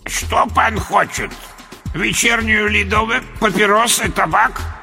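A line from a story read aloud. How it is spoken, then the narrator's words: Unpleasant old man's voice. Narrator (Russian): Противным голосом поинтересовался старик-киоскер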